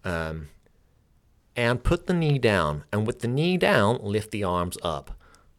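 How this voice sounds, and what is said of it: Terrible generic American accent impression of Jason Crandall. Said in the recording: “an impression of him ... it would just be a generic American accent ... my terrible American accent ... Sorry for that American accent”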